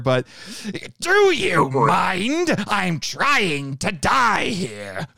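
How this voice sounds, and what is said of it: Rough impression of a cartoon character. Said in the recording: “I'm going to do a terrible impersonation here ... You could hear the Dinobot in that.”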